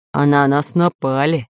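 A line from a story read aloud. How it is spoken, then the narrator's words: Displeased grumble. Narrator (Russian): недовольно пробурчал пират Буль-Буль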